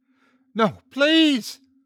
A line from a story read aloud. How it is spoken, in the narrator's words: she shrieked with an anguished blue eyes